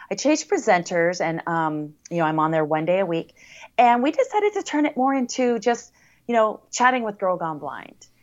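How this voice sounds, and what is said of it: American accent. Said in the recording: “They love that American accent over there.”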